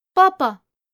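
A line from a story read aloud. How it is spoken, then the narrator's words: Loud child's call. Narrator (Russian): детский голос громко позвал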